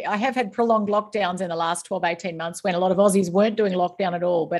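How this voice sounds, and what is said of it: Australian accent. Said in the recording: “as my accent gives away, I am born and raised in the land down under”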